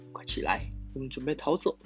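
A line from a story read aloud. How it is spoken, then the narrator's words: Soft voice. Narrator (Chinese): 爷爷轻声说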